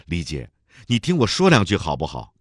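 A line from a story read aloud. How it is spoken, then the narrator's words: Impulsive shout. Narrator (Chinese): 金月兰冲动地喊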